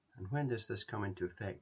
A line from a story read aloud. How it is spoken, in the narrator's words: he asked